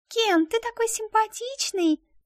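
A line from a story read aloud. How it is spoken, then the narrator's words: Affected chirping child's voice. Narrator (Russian): Жеманным голоском прощебетала дочка за свою куклу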